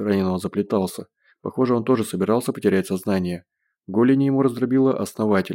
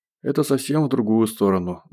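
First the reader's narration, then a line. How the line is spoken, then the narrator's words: Sighing. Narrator (Russian): вздохнул Гош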